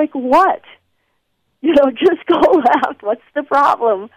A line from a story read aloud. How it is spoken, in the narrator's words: he'd scream